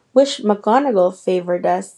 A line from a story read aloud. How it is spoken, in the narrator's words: said Harry